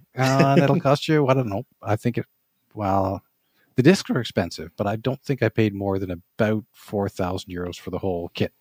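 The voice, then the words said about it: Canadian accent. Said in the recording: “you were Canadian because your accent comes through”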